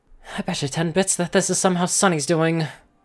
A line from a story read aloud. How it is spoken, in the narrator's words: Sprout muttered